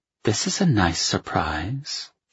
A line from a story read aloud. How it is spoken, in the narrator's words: she murmured